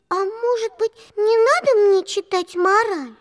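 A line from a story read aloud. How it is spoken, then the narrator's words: Timid. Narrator (Russian): робко сказала Алиса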